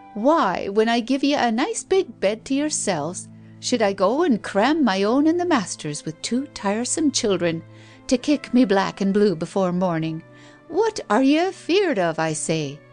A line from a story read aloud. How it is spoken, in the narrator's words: laughed